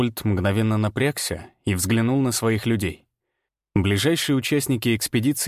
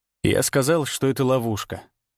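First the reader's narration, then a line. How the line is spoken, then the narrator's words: Calm repetition. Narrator (Russian): повторил спокойно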